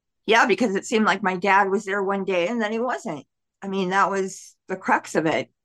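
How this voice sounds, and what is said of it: Choked-up, emotional voice. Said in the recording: “can you tell I'm getting choked up?”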